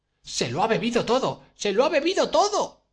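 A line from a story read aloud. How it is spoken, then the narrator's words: Desperate shouting. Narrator (Spanish): vociferaba Catalina Ivanovna en el colmo de la desesperación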